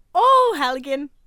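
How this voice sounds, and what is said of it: Put-on Irish accent. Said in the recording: “Irish.”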